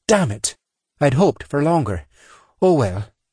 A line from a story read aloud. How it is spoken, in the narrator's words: she said with a sigh, then followed up in a happy tone